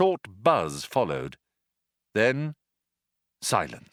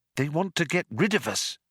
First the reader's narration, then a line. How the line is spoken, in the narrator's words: said Trillian nervously